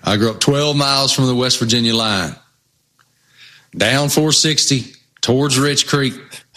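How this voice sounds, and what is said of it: Noticeable regional American accent. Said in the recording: “you got a funny accent. ... I grew up in Southwest Virginia”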